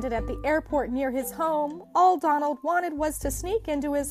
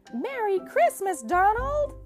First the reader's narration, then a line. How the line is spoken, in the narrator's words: cried